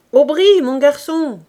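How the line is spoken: Shouted. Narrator (French): cria-t-elle

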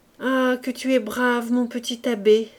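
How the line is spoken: Exclaimed. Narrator (French): s'écriait la Marietta

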